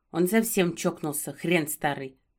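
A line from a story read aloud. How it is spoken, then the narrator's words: Tearful grumble. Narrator (Russian): Буркнула, смахнула слезу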